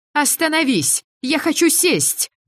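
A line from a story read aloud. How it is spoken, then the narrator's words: Yelling. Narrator (Russian): Заорала я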